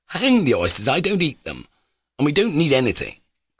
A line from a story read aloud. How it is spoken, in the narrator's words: cried Pyotr Ilyich, almost angrily